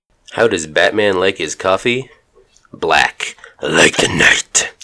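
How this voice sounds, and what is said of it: Scratchy demonic Batman voice. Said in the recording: “my Batman voice went a little too into my demon voice ... I went a little too demon, or the bad guy from Inspector Gadget ... It's also very scratchy”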